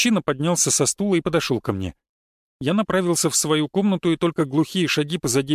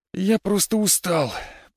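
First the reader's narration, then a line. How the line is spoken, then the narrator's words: Groaning. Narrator (Russian): простонал я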